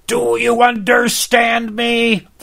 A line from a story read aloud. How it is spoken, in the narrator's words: He screamed like a comedian